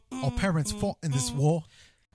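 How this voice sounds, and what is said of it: Bad fake English accent. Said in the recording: “I have a terrible fake English accent.”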